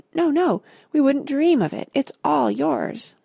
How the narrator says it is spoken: the others all cried

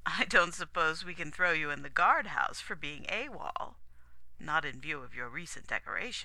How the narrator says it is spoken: the Commodore chuckled again

